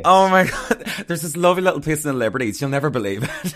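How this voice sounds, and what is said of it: County Armagh Northern Irish accent. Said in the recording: “I love your accent, by the way... It's from County Armagh.”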